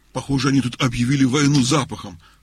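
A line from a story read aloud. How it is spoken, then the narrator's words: Dog grumbling. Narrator (Russian): ворчал пес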